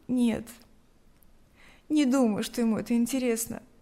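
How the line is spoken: Sighing. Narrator (Russian): вздохнула Лика

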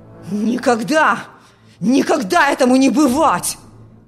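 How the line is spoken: Furious shouting. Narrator (Russian): В ярости кричал отец

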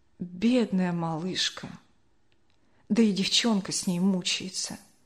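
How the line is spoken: Quiet lamenting, old woman. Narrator (Russian): бабушка Ксения тихо запричитала

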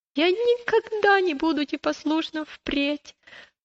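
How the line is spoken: Sobbing child. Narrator (Russian): прорыдал маленький христианин

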